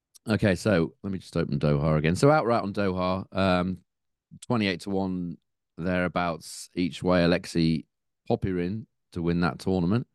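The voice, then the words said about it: Strained, weak, unwell-sounding voice. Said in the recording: “I know you're not feeling too great ... Voice that can't hold up. ... My voice isn't so great.”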